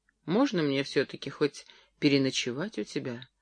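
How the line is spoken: Timid question. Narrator (Russian): робко спросил Джерри

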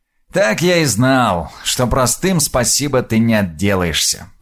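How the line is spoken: Grumbled. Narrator (Russian): проворчал Крув

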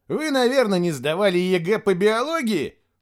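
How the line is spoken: Snorted. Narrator (Russian): фыркнул Костя

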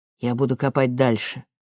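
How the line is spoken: Calm reply. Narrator (Russian): спокойно ответил Вильям

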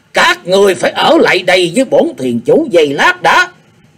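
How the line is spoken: Eerie, wretched loud roar. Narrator (Vietnamese): Tử Dòng thuyền chủ quát mắt lên với giọng thật rùng rợn, thê thảm quát lớn

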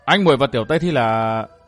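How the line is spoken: Hesitant. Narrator (Vietnamese): Chàng ngập ngừng

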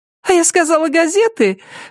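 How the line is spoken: Ringing laugh, realizing mistake. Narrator (Russian): Джессика звонко рассмеялась, сообразив, что, видимо, ошиблась

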